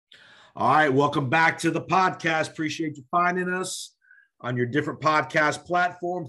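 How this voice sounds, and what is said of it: Raspy voice from a cold. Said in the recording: “Excuse my voice tonight. I got a little cold going on, so my voice is a little raspy”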